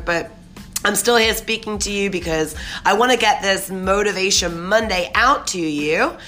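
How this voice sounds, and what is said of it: Hoarse, sore-throated voice. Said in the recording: “apologize for my voice today. I've got a little sore throat,”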